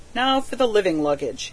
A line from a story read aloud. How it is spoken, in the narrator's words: he said with a wink